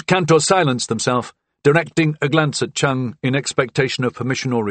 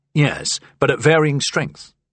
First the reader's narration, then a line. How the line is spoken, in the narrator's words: Cantor said